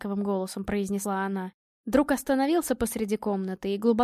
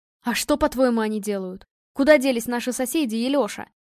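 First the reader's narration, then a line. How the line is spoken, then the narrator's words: Young man shouting out. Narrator (Russian): выкрикнул парень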